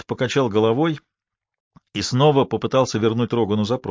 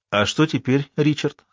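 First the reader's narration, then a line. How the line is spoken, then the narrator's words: Plain question. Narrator (Russian): спросила Элли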